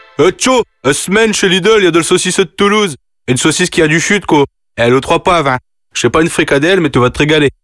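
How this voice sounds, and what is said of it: Northern French accent. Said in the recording (French): “avec un accent du Nord”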